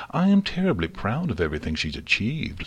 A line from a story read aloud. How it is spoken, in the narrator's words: Celestia said hastily